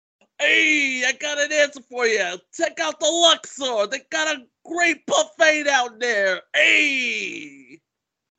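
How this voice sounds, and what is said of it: Stereotyped Italian-American Brooklyn accent. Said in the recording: “this person who has this Italian accent looking for pizza in Brooklyn”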